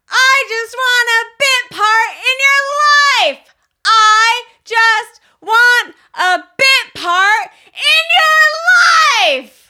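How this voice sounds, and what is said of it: Sung imitation of a song's singer. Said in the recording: “your best impression of the beginning of that song”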